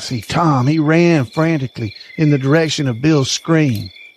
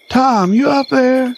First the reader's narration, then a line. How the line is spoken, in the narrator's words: screamed Bill hoarsely from somewhere in the dark depths